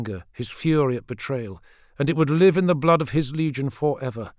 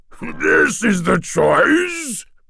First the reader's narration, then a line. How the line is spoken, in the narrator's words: Mardale boomed